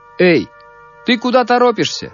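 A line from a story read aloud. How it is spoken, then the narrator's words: Shouted. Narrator (Russian): крикнул мальчику солдат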